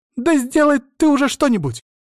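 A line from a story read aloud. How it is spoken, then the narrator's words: Shouted. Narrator (Russian): закричала она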